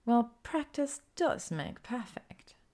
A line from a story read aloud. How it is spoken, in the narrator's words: Hermione purrs